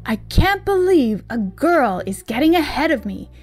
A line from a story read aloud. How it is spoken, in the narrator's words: exclaimed